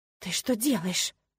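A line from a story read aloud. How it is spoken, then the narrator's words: Hiss. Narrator (Russian): зашипела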